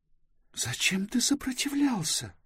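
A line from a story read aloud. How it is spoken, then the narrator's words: Angry whisper. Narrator (Russian): гневно прошептала Близ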